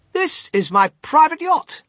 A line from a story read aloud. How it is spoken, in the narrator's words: cried Mr